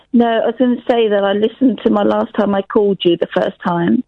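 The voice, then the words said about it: Husky, hoarse voice. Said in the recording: “I've still got bronchitis, so my voice is very husky.”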